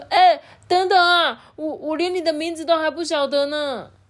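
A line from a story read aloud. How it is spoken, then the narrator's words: Shouting. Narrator (Chinese): 这个皮耶在边大喊说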